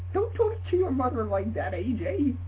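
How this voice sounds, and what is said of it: Man doing British mother voice. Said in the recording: “Apparently my mother is from the United Kingdom, and And she sounds like she's a man.”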